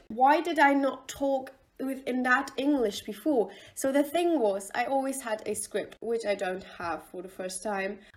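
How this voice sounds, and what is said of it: British English accent. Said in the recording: “I sound a little bit different because I start to talk in a British accent, which is actually my original English”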